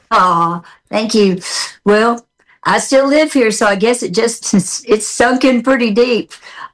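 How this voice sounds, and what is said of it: Southern American accent. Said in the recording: “I like your Southern accent. It never goes away.”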